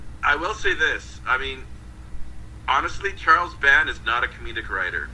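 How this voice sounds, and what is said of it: Usual voice. Nothing is said of it.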